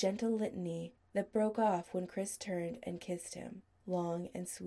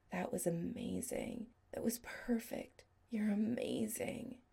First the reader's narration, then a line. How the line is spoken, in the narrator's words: Adam whispered low